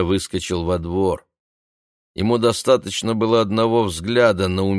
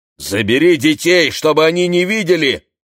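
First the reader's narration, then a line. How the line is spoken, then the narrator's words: Shout. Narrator (Russian): крикнул он Юдит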